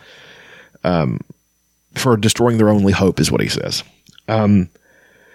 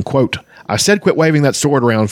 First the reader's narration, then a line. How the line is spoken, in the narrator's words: Fizban snapped irritably